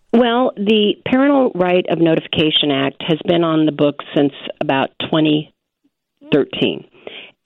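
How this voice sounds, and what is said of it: Scratchy voice from a cold. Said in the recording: “I've got a cold this rainy day, and so my voice is a little scratchy”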